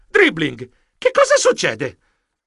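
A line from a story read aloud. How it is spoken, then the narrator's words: Exclamation. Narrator (Italian): Esclamai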